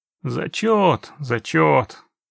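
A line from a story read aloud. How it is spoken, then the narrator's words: Grumbling. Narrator (Russian): проворчал Весемир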